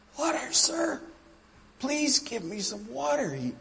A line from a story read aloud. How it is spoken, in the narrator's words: pleaded